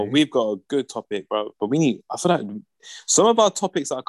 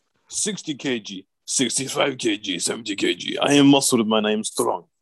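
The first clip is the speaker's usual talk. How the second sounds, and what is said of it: Put-on accent, fairly convincing. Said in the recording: “That was quite a good accent”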